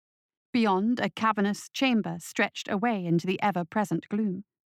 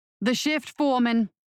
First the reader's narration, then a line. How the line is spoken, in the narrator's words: yelled over the din